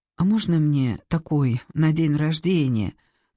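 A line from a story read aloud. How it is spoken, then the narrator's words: Sad question. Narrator (Russian): грустно спросил он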